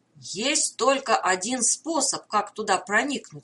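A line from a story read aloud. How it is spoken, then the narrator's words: Plain. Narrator (Russian): сказал Хостин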